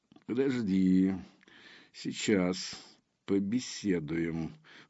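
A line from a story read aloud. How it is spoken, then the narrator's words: Soundless breath. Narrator (Russian): выдохнул Мальгин беззвучно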